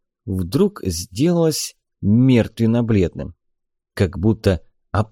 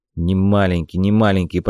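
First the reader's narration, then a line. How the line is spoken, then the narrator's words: Grumbling father. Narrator (Russian): пробурчал отец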